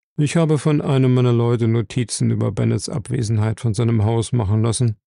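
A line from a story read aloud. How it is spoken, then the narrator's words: Plain. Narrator (German): sagte er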